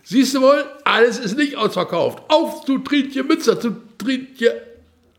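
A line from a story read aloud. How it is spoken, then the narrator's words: Cheerful call, recovered. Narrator (German): Von seiner Alteration erholt, rief vergnügt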